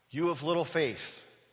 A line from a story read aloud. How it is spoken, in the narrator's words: he said